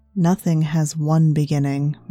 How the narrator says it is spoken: Mara says

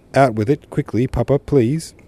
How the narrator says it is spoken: Tony cried

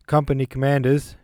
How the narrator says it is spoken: he shouted in a voice accustomed to command

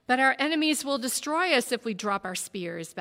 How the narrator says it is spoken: Balthasar said impatiently

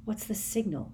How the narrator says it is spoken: muttered Harry

